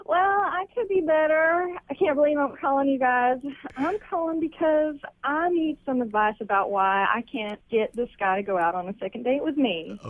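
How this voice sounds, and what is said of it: Slight accent. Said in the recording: “I like your little accent. You got just a little accent.”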